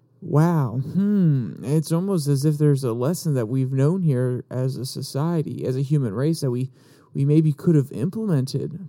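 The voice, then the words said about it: Sarcastic tone. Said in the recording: “I'm being sarcastic, and I'm sorry if I'm being overly sarcastic”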